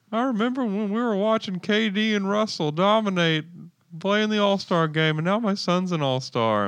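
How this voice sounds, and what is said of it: Southern crying voice. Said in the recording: “gave him that voice ... It's like a crying voice ... I'm Southern and sad now ... I turn into a cartoon dog”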